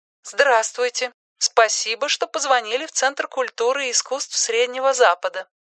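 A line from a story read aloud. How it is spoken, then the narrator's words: Polite female robot voice. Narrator (Russian): вежливо благодарит его робот женским голосом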